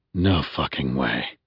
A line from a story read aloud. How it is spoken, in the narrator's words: I breathed